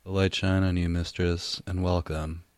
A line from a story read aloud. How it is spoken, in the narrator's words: he sighed